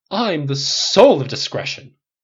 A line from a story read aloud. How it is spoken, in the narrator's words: Jackie cried with a front